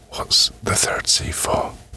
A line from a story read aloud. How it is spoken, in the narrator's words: Curiosity overpowering any good sense she had left, she whispered